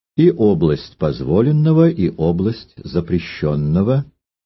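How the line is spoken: Plain. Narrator (Russian): ответил кардинал

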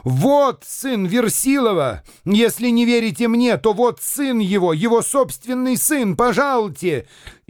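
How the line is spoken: Sudden shout. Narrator (Russian): вдруг закричал на меня

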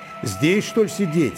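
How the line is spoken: Plain. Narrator (Russian): сказал Назарка

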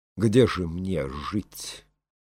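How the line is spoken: Cold. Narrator (Russian): холодно промолвила Елена

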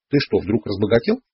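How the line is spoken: Laughing. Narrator (Russian): засмеялась она

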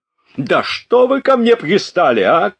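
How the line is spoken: Sudden heated shout. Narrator (Russian): крикнул Денисов, вдруг разгорячась

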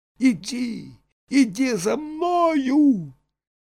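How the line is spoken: Boy shouting. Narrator (Russian): Мальчик … крикнул Пусторосливу

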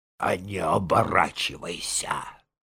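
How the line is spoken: Hoarse reply. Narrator (Russian): ответил сиплый

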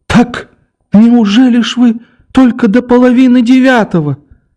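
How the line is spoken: Timid plaintive cry near tears. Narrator (Russian): вскричала Александра Семеновна робким и жалобным голосом, чуть не плача

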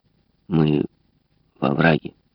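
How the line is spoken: Plain. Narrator (Russian): сказал Рутерфорд

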